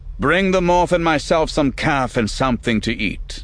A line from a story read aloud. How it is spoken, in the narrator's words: Borkus called out to someone in the hall